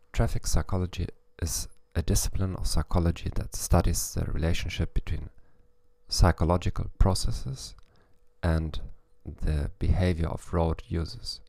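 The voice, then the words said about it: English with a German accent. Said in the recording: “in English with a German accent”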